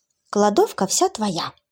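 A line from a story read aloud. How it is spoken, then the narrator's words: Snide whisper. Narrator (Russian): ехидно прошептала я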